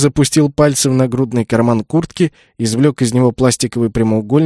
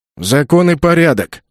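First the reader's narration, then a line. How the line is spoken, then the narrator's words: Booming drone. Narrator (Russian): прогудел Полок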